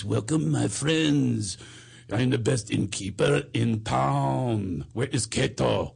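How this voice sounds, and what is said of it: Bad exaggerated French accent. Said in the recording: “doing a French accent ... like a bad Clouseau ... like he was doing a bad Pink Panther thing”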